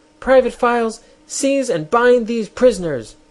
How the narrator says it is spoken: screamed the queen

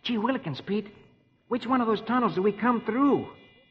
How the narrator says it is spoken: Rusty exclaims

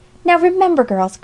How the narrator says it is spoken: cried Alexia

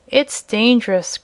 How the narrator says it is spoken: growled Jim, in a stubborn tone

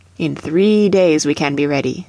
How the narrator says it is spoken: said the Indian

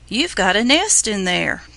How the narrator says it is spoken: Peter exclaimed excitedly

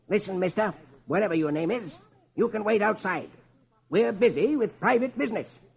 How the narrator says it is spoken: Marlowe snaps

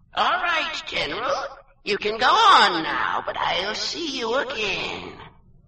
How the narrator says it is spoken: there came a screeching voice out of thin air, and it said

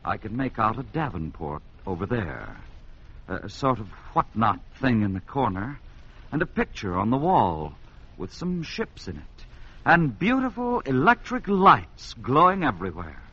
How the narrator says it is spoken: he replied, quietly enough

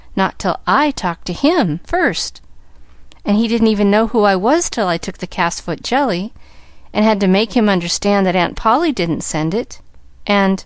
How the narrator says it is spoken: cried

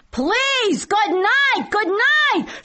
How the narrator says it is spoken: I called out in Yiddish

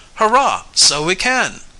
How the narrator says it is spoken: cried Sam

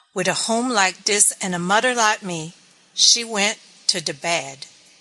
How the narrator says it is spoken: cried the mother

